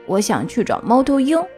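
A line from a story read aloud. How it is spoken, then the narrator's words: Nasal, hoarse. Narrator (Chinese): 小乌鸦拖着重重的鼻音，沙哑着嗓子说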